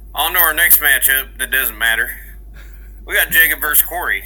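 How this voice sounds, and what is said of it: Put-on Southern American accent. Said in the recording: “Please keep it with a southern accent, though.”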